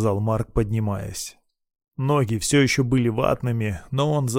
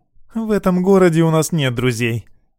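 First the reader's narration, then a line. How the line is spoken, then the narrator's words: Scornful snort. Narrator (Russian): фыркнула Лира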